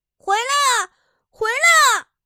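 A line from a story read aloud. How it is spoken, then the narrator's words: Distant call from shore. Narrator (Chinese): 岸上传来耶尔尼斯涅的呼喊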